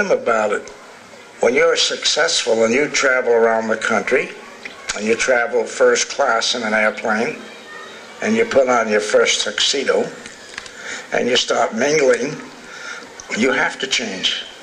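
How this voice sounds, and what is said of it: New Jersey accent. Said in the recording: “I'll never get rid of this New Jersey accent”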